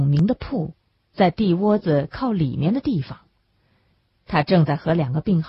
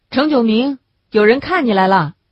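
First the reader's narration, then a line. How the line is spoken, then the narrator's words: Calling out. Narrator (Chinese): 陈玉明一掀门帘子就喊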